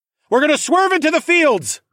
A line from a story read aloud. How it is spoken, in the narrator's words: I yelled